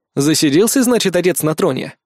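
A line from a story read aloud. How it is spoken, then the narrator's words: Wry snort. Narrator (Russian): хмыкнул я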